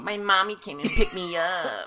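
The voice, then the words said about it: Baby voice. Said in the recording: “Oh, it's a baby voice.”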